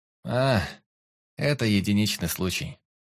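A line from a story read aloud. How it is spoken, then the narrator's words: Scoffing snort. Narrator (Russian): хмыкнул Луан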